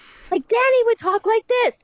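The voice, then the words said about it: Shouty child girl voice. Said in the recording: “that kind of, like, shouty child girl ... voice”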